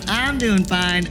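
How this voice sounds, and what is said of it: Imitates another person's voice. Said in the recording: “mimicking, my best impression of Xandar”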